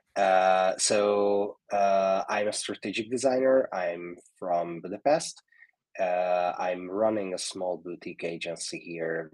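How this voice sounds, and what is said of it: Rough, sick-sounding voice. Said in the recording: “As you can also hear, I have the same COVID as Thorsten. So this is, my voice is so horrible today.”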